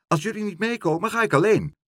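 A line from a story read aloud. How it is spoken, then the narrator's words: Calling out. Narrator (Dutch): riep Dolly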